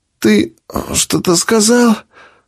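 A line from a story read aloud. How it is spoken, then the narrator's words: Sleepy question. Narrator (Russian): Сонным голосом спросила женщина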